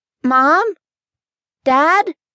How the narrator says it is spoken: called out nervously

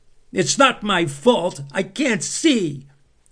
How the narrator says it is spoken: Toby shouted, stamping his foot in frustration

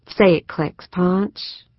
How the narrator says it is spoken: Susan asked softly, through lowered lashes

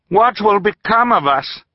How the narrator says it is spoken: Violet asked, raising her voice to be heard over the rushing water

